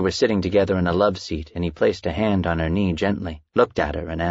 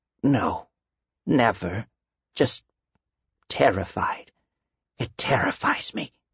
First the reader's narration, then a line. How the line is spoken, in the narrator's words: She finally spoke in a hoarse voice